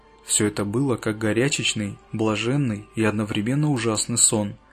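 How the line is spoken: Whispered confession. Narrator (Russian): признался шепотом

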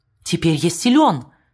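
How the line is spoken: Madman exclaiming. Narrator (Russian): воскликнул сумасшедший

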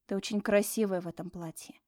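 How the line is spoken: Barely audible. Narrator (Russian): произнес я практически чуть слышно

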